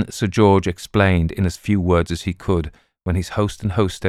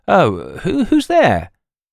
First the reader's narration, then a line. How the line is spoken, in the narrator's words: Jack Hardress called out sleepily